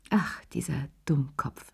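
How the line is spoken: Sigh. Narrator (German): seufzte

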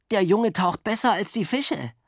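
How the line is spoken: Gasping for breath. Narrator (German): japste nach Luft

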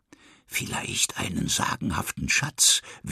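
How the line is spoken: Whispering. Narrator (German): wispert Line

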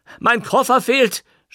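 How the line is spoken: Shouting. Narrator (German): schrie Löwenstein

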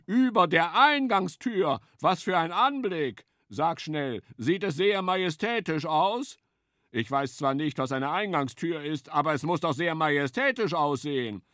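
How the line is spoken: Calling out. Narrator (German): rief Hirsch

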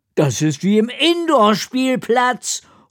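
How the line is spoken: Calling out. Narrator (German): ruft Fadol

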